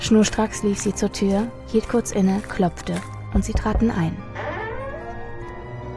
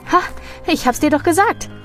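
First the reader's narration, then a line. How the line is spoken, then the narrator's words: Calling out. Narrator (German): Vasilisa rief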